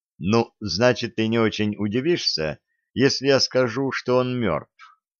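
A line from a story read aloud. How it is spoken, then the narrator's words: Calm remark. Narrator (Russian): спокойно заметил Далмас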